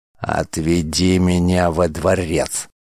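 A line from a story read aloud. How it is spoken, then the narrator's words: Growled. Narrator (Russian): прорычал Тарш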